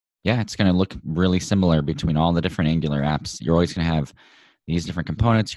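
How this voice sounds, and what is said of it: Slightly gruff voice. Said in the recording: “my voice is a little gruff today. ... I'm not coming down with a cold”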